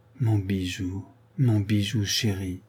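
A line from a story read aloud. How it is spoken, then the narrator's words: Murmuring. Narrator (French): murmura Madame de Bracieux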